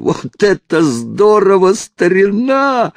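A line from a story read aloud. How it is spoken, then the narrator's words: Yelling. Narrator (Russian): заорал он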